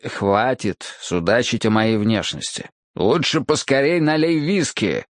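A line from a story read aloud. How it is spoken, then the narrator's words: Irritated growl. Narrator (Russian): рыкнул я на него, будучи не в настроении для легкомысленной болтовни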